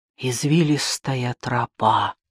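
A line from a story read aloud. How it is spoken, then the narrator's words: Barely audible whisper. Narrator (Russian): прошептала Энотея чуть слышно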